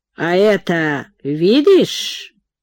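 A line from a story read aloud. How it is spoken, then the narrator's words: Sly voice. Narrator (Russian): сказал Ибрагим плутоватым голосом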